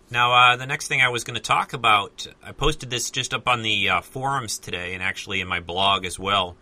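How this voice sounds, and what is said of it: Voice slightly off, lingering cold. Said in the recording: “apologize for my voice a little bit tonight. I'm still trying to shake off the last bits of this cold ... my voice is not quite what it should be ... sounds a little strange”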